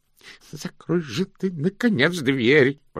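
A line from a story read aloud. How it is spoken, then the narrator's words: Groaning. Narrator (Russian): простонал Слыпень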